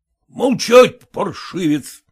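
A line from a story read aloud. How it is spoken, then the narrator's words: Angry shout. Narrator (Russian): закричал на него Зваров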